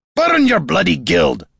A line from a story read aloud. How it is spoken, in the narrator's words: Gorm roared